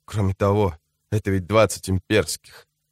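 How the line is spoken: Whisper. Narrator (Russian): добавил он шепотом

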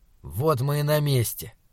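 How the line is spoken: Gloomy. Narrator (Russian): мрачно сказал Саймон

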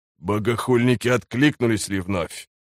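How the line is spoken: Interrupting. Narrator (Russian): прервал ее Хриплый

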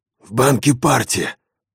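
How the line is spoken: Hoarse. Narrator (Russian): хрипло сказал он

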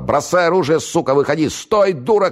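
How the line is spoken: Shouted after someone. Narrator (Russian): крикнул ему вслед Октябрьский

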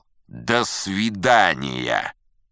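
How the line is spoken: Rude. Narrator (Russian): Крабок грубо сказал

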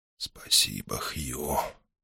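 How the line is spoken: Whisper. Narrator (Russian): он прошептал

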